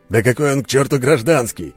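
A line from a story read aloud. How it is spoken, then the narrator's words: Barked. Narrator (Russian): рявкнул Алексей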